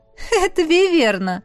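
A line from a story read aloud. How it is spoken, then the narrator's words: Chuckling explanation. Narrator (Russian): хохотнув, пояснила Аиса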